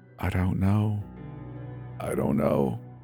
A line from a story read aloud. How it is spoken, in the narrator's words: whispered, frenzied